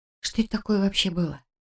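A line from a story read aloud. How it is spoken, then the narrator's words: Quiet question. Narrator (Russian): тихо спрашиваю я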